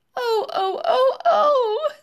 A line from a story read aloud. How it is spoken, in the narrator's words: sobbed Mrs